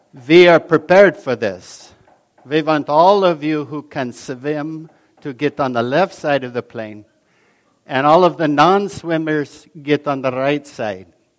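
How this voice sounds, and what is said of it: Put-on German accent. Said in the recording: “for those of you who speak German as a first language, I humbly ask your forgiveness for my attempt at an accent.”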